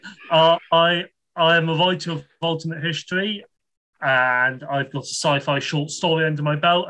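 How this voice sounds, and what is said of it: British accent. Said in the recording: “as you can tell by my accent, I am unfortunately British.”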